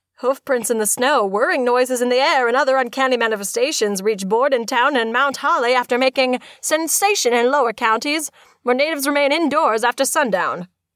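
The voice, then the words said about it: Transatlantic accent. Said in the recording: “deep cut with the transatlantic accent”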